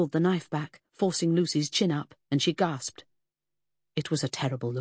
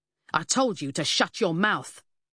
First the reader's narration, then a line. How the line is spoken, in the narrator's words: snapped